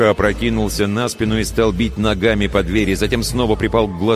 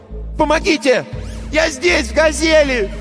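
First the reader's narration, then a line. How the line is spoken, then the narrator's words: Shouting. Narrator (Russian): Он закричал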